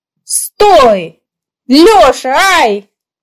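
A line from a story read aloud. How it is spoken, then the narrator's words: Angry shout. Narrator (Russian): Девушка-возница сердито крикнула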